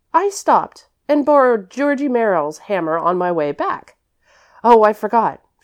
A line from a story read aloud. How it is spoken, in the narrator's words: continued Priscilla hastily